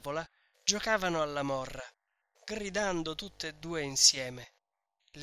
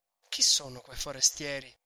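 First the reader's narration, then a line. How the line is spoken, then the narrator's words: Low voice. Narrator (Italian): domandò poi a voce bassa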